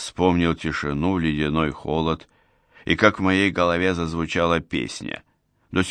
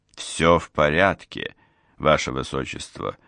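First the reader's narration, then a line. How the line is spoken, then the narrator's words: Cold, offended. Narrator (Russian): холодно сказал я, задетый его тоном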